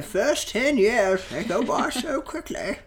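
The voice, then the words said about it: Old man voice with British accent. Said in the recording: “This is your old man voice. ... He's British. ... When I'm old man, I'm going to be British.”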